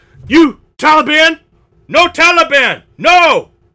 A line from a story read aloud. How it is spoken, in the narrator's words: the man shouted